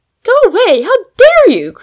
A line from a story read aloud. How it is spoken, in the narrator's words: cried Polly, growing much redder than her rose